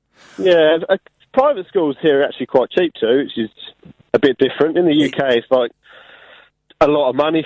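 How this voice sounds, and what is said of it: English voice with Australian accent. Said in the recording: “You, are slip, slipping back is... into the Australian accent. ... your relaxed voice.”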